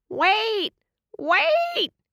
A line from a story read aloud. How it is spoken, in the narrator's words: yelled